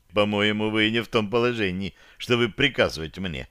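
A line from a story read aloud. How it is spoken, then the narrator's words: Calm. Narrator (Russian): спокойно ответил я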